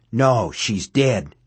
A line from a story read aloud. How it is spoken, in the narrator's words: he whispered harshly